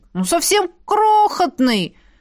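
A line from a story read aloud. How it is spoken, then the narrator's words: Exclaimed. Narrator (Russian): воскликнул Лин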